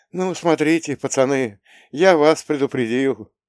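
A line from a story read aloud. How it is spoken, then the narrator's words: Heavy sigh. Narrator (Russian): Тяжело вздохнул Мишин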